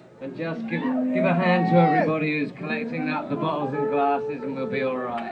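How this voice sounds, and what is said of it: English accent. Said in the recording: “laddie English accent. I can't get rid of it”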